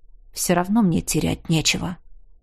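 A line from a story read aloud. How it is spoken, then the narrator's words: Calm reply. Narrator (Russian): Так же спокойно отозвался я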